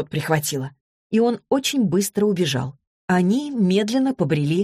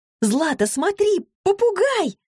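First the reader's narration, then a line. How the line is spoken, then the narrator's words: Yelling. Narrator (Russian): завопила Василиса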